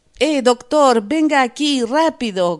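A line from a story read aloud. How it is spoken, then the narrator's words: Gunman shouting. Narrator (Spanish): gritó el hombre de la pistola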